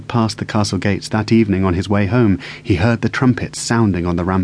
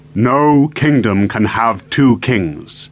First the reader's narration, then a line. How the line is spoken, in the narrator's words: he thundered